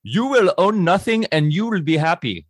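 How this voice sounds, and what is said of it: Poor put-on Indian accent. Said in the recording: “That was an Indian accent. That was terrible.”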